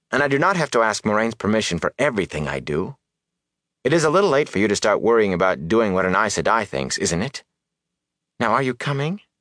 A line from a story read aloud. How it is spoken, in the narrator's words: she said stiffly